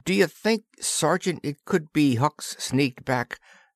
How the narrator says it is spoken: Patrolman Willis asked hesitantly

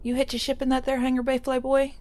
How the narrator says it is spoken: She asked Carl breathlessly

